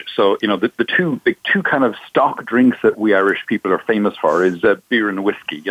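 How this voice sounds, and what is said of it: Irish accent. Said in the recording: “I'm obviously from my accent, I'm Irish.”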